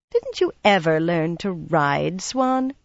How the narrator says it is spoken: she added, her voice suddenly dripping derision

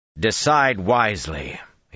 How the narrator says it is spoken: he said

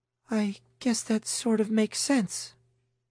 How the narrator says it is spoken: Camille said hesitantly

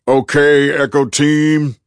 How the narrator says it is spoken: roared

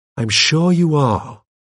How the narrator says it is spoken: I said soothingly

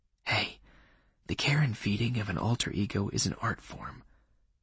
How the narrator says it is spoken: replied in the same low tone

